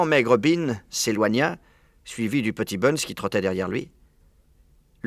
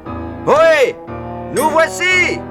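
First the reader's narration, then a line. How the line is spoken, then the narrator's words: Yelled. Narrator (French): hurla Bean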